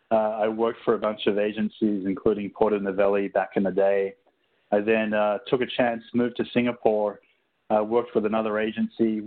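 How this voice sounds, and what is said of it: Australian accent. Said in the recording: “the accent. Originally, I'm from Sydney, Australia.”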